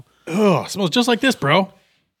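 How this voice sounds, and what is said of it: Talks like a frat boy. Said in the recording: “talk like a frat boy”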